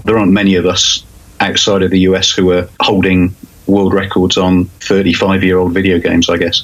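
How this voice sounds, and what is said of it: Non-American accent. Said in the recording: “You probably tell by my accent, I'm not a US resident.”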